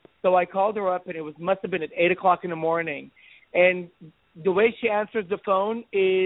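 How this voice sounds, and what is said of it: Usual voice. Nothing is said of it.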